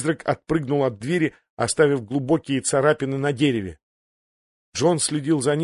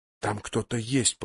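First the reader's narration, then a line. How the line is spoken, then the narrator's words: Whisper. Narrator (Russian): прошептал он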